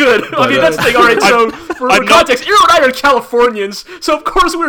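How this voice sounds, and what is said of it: Usual voice. Nothing is said of it.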